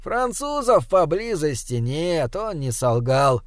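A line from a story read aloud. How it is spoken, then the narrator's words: Indifferent, small man. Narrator (Russian): прежним равнодушным тоном проронил человечек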